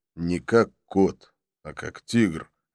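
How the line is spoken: Plain. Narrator (Russian): ответил Абдулла

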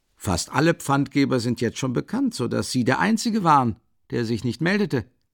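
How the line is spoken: Faintly mocking answer. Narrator (German): antwortete Porfiri Petrowitsch mit einem kaum merklichen Anflug von Spott

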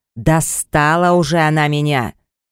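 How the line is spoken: Roar like hungry bear. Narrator (Russian): Я взревел, как голодный медведь, так меня раздирало на части упрямство этой красотки

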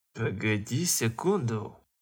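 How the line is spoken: Indignant young man interrupting. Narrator (Russian): Возмущенным голосом прервал его бритый парень

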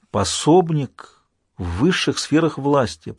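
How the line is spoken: Impressed whisper. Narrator (Russian): прошептал впечатлившийся Джек

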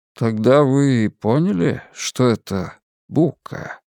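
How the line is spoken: Quiet question. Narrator (Russian): тихо спросил Харпер

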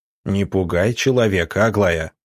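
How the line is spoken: Stern, doctor. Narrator (Russian): строго сказал доктор

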